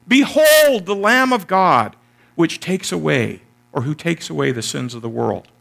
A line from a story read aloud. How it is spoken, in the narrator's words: someone called out